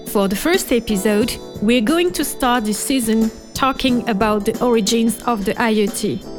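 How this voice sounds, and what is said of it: French accent. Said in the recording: “please bear my French accent”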